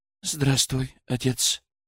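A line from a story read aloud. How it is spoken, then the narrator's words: Quiet reply. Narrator (Russian): тихо ответила Елизавета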